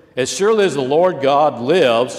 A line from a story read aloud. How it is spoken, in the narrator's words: she replied